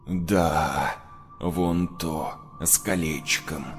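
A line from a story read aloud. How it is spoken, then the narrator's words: Bloodthirsty hoarse rasp. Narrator (Russian): кровожадно прохрипел из тьмы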